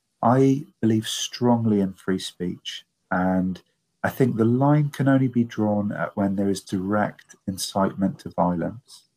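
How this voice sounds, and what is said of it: British accent. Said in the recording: “I'm from the United Kingdom, as you can probably tell from my accent.”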